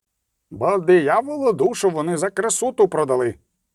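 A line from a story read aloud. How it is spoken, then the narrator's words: Short man shouting. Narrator (Ukrainian): крикнув низький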